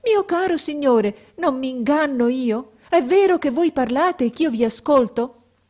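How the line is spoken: Sorceress's surprised exclamation. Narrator (Italian): A queste parole che non si aspettava, la maga esclamò

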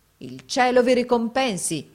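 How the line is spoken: Exclamation. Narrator (Italian): esclamò

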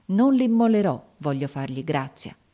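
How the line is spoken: Exclamation. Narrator (Italian): esclamai

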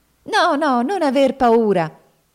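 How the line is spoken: Child's exclamation. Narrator (Italian): esclamò la piccola Ruth

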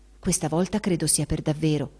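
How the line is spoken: Confidential whisper. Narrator (Italian): sussurrò alla cognata in confidenza

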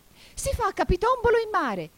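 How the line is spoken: Wild, excited shout. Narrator (Italian): gridò la falsa testuggine saltellando pazzamente qua e là

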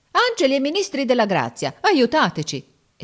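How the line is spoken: Exclamation. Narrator (Italian): esclamò Giorgio

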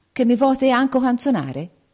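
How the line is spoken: Prince exclaiming. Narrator (Italian): il figliolo del re esclamò

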